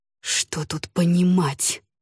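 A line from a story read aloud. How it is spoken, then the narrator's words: Hiss. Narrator (Russian): прошипел Ламинар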